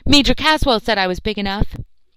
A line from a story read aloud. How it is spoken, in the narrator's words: Charlie, not liking this kind of teasing, cried hotly